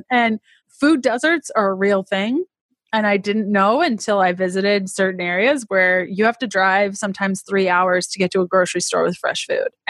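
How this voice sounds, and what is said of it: Thick Canadian accent. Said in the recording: “i'm canadian if you can't tell by my crazy accent, which I'm told is quite thick”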